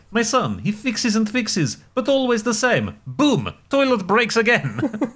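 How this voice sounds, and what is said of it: Put-on Eastern European accent. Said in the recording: “I need to do this in an Eastern European accent”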